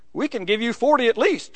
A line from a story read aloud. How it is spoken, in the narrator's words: she exclaimed enthusiastically